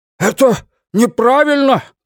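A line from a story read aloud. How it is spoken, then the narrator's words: Shout. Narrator (Russian): прокричал Уитни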